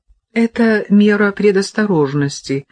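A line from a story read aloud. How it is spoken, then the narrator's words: Plain. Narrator (Russian): сказал Селим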